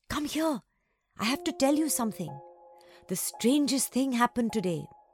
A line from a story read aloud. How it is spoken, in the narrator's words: whispered through the gate